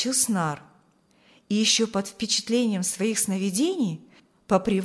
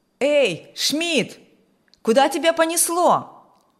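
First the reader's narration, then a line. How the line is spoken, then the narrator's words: Loud call from behind. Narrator (Russian): Громко окликнул его бригадир, неожиданно появившийся за его спиной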